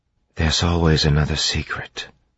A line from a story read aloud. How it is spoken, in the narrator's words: Vin whispered